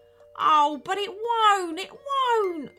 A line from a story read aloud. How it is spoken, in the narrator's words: wailed the captain